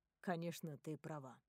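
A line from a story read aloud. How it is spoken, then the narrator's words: Quiet. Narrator (Russian): тихо говорит он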